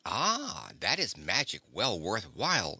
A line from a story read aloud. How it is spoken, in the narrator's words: exclaimed Ozma, well pleased